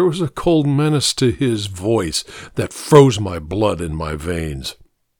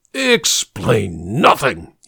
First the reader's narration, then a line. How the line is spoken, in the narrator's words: he hissed